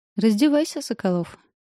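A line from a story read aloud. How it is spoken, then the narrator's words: Mocking goading. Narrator (Russian): насмешливо подстрекает Солнцева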